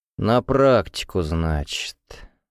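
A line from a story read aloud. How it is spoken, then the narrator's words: Puzzled drawl. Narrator (Russian): озадаченно протянул Ревякин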